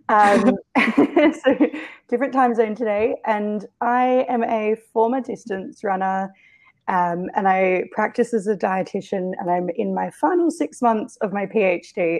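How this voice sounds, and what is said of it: Australian accent. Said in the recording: “I'm based in Melbourne, Australia, hence the accent.”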